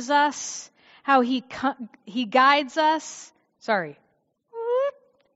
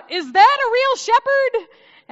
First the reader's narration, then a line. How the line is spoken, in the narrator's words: I blurted out